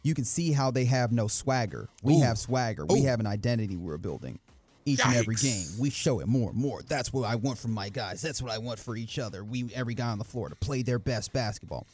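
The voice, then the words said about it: Imitates another person's voice. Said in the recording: “Why are you reading it like that? ... Was that your Dylan Brooks impression? ... That's right.”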